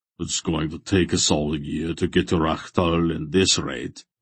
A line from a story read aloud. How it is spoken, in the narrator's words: Beric rumbled sourly